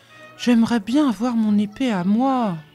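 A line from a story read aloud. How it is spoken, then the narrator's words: Sigh. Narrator (French): soupira Taran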